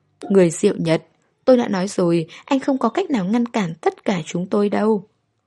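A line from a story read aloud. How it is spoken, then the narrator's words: Calm, smiling. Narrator (Vietnamese): Anh ta không hề hốt hoảng, chỉ mỉm cười nói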